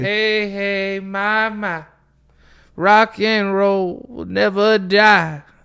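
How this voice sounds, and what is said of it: Sung imitation of another person's voice. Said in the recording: “can you do Neil? I can't really do a Neil Young impression.”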